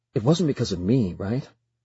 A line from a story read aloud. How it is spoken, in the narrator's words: He asks quickly